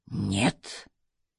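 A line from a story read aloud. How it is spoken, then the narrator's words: Breathed out. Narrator (Russian): выдохнул он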